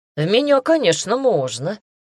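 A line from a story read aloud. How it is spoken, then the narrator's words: Snorting. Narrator (Russian): хмыкнула Эллен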